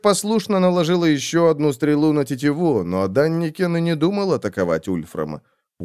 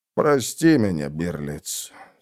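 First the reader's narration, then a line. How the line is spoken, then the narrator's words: Tired voice. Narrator (Russian): сказал он усталым голосом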